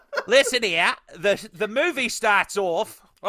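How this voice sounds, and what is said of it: Put-on Cockney-Australian accent. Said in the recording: “I just went to Cockney Australian ... that accent went way off left field”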